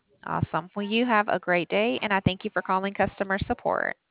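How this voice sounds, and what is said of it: Southern US accent. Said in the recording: “Where's your accent from? ... I was going to say the South”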